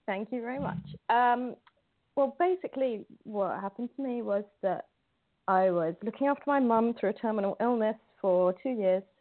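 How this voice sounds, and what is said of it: British English accent. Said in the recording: “I'm in London, hi. UK, as you can probably tell from my accent.”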